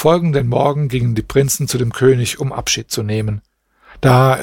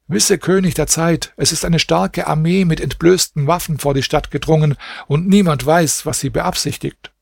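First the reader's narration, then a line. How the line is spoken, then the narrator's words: Officer calling out. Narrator (German): ein Offizier herbei und rief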